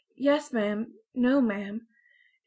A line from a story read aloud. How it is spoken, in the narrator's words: turn as red as a beet and stammer